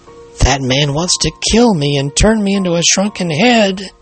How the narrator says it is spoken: he moaned

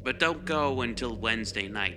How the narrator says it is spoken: he said

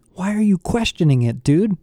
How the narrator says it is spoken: Connor pleaded

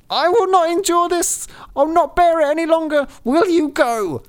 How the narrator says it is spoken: she fell into a rage, and her hair flew wildly about her head, and she cried

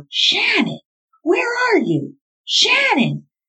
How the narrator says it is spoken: he shouted over and over

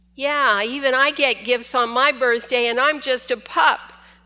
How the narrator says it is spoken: Shushu barked

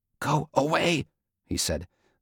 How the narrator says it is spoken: the words a whisper

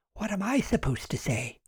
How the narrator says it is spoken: Susan whispered

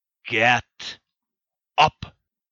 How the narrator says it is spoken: He growled once again

